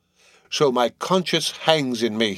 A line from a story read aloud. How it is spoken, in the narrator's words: he groans